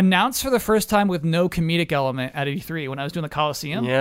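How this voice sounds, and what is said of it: Usual voice. Nothing is said of it.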